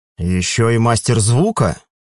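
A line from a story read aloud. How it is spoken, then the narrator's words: Elder's skeptical grunt. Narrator (Russian): хмыкнул старейшина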